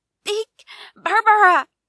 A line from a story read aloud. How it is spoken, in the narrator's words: screamed instead